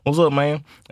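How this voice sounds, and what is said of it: Imitated southern accent. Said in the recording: “He got that southern accent.”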